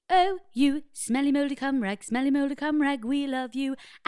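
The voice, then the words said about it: Sung in a put-on posh voice. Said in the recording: “should I do a posh voice? ... What, like a Von Trappy?”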